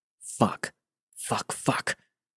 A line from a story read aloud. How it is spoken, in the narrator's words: John breathlessly murmured